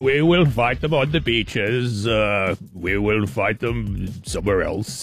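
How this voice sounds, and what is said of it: Winston Churchill impression. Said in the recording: “Winston Churchill ... Give us your Winnie impression. ... It's not bad.”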